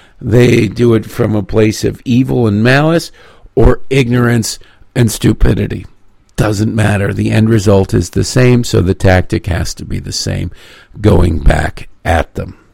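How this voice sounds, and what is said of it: Sore-throated, wavering voice. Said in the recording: “my throat is not feeling super good, and my voice is wavering.”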